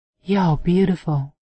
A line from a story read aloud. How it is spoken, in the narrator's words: she breathed